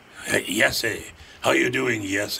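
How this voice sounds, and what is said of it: Weird accent, J pronounced as Y. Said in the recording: “had the weird accent ... Pronouncing a J as a Y would be like a Scandinavian thing, I think. But maybe the Germans.”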